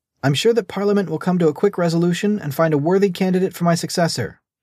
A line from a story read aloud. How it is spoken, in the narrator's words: smiled playfully